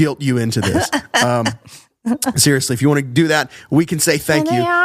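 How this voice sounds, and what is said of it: Usual voice. Nothing is said of it.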